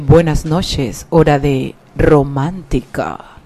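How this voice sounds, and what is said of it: Smooth late-night radio announcer voice. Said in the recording (Spanish): “tiene una voz de locutor ... sí, de locutor de, programa de medianoche”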